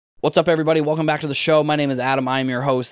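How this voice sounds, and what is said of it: Slightly raspy voice from illness. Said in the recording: “I was sick over the weekend, and I don't know if you can hear it in my voice. I'm still kind of recovering a little bit. My voice is a little bit more raspy than maybe it normally is”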